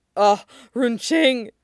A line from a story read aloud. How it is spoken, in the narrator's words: Sui Zhou gasps